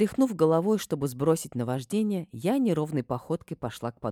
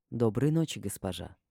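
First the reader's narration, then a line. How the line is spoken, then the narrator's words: Quiet. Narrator (Russian): Эш тихо произнес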